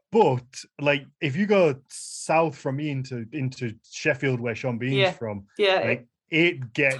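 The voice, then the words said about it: Blunt Yorkshire accent. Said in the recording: “There's so many in Yorkshire. ... Our accent does sound like you're being beaten with a blunt object. ... If you think my accent's blunt”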